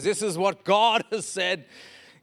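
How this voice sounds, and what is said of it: Put-on American accent. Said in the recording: “in an American accent”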